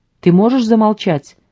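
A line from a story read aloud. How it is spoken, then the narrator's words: Shout. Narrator (Russian): крикнул он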